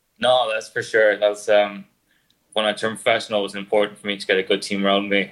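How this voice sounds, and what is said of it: Irish accent. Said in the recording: “I hope you don't have any difficulties listening to the Irish accent”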